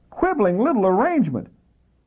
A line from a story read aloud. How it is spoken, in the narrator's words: She shrieked